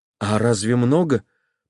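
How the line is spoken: Whispered. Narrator (Russian): прошептал Левин

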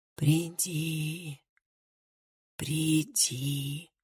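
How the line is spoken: Whispered call. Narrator (Russian): кто-то звал его шепотом

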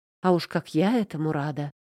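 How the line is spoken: Muttered reply. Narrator (Russian): пробормотала в ответ

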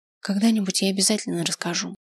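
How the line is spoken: Quiet. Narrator (Russian): сказала тихо

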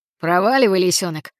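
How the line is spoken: Growl. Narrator (Russian): прорычал Балаклава

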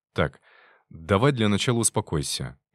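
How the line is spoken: Soft, gentle. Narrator (Russian): мягко проговорил я

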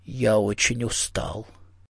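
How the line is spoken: Quiet. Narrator (Russian): Мартин тихо сказал

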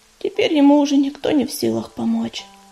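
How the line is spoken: Sad. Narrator (Russian): грустно сказала она

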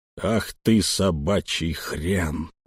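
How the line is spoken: Furious, through gritted teeth. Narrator (Russian): процедил, чувствуя, как багровеет окружающий мир

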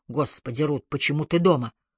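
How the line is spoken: Hoarse reply. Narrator (Russian): хрипло ответил Ги

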